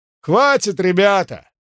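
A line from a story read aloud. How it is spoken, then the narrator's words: Loud shout over crowd. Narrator (Russian): крикнул поверх их голов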